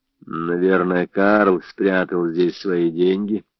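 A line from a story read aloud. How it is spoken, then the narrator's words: Mutter. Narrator (Russian): пробормотал он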